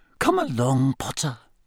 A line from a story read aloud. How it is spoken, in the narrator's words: she whispered